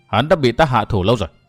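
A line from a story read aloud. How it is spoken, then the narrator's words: Cold smirking reply. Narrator (Vietnamese): Thành nhân cười nhạt đáp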